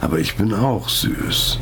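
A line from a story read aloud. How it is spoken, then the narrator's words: Giggling. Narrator (German): kicherte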